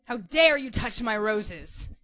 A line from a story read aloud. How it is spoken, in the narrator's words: came the horrifying snarl, filling up all of the space in and around John's head